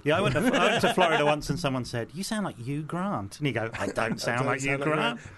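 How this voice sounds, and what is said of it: London English accent. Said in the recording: “I guess it's sort of London ... I guess it's a kind of London”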